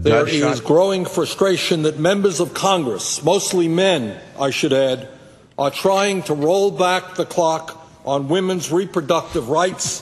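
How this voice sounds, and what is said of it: Heavy New York Brooklyn accent. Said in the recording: “that heavy, like, New York, Brooklyn accent”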